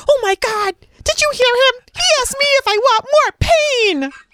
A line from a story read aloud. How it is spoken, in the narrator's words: the kid was yelling at his coach